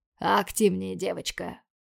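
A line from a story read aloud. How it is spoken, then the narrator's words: Urging, hurried. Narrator (Russian): Поторопил меня Майяр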